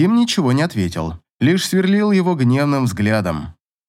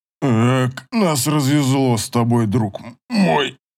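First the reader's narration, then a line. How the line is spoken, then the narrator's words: Grumbling. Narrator (Russian): проворчал он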